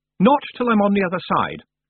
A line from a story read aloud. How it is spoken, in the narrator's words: Roland said firmly